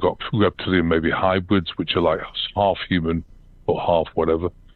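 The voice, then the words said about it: British accent. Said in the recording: “I've still got a British accent”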